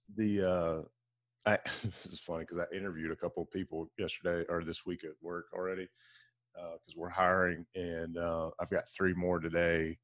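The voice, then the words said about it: Low, groggy late-night DJ voice. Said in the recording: “I got my late night DJ voice on this morning. You hear that? coffee hasn't kicked in”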